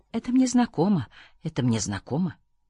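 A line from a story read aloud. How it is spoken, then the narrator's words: Quiet insistent repetition. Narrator (Russian): в голове у меня кто-то тихо твердил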